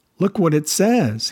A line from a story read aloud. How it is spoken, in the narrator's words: he exclaimed